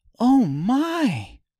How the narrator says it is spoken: Dorothy cried

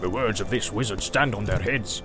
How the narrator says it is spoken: he growled

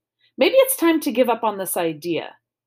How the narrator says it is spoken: said with a sigh

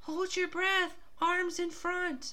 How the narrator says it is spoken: she shouts

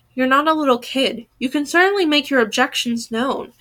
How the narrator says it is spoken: he says

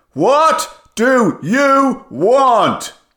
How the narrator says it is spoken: yelled

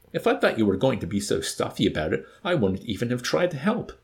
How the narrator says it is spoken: Corporal Whitcomb declared indignantly

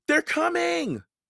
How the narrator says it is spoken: Annie cried

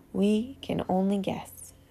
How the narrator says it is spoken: said Dumbledore

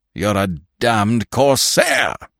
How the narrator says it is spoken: he cried, thickly

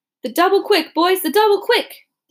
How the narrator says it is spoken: the officer shouted

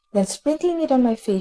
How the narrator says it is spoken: she cried madly

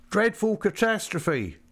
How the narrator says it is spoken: they bawled one to the other down Wellington Street

